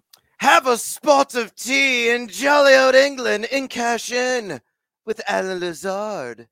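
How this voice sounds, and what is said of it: Bad put-on British accent. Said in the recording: “terrible British accent”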